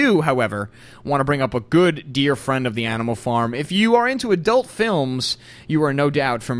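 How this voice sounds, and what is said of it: Usual voice. Nothing is said of it.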